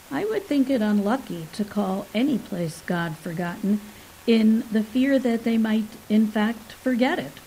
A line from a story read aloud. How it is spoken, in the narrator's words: Lythanda observed calmly